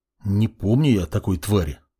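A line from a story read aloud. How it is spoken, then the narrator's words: Muttered. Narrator (Russian): пробормотал он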